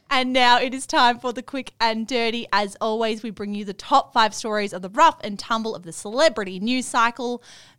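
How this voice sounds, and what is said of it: Australian Melbourne accent. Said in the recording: “my Melbourne accent makes it sound like an A”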